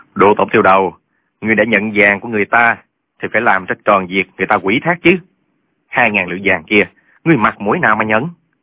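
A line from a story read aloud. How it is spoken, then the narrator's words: Dry mocking laugh. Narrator (Vietnamese): cười nhạt mấy tiếng nói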